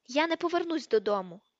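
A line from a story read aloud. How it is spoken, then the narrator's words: Angry tearful shout. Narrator (Ukrainian): крикнула Джинні з сердитими слізьми на очах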